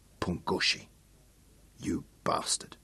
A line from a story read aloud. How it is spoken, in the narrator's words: whispered again